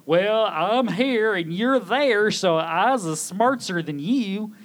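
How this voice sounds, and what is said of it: High-pitched put-on hillbilly accent. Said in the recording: “what was that voice? ... he's channeling something here ... Beverly Hillbillies ... I just hit the high notes there”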